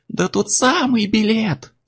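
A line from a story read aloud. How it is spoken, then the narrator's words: Shrieking. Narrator (Russian): завизжал Чак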